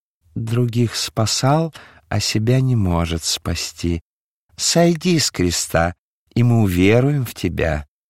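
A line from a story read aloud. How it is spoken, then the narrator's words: Quiet, clear, feigned pity. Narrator (Russian): Хитрый Анна, напустив на себя лицемерную жалость, тихо, но внятно сказал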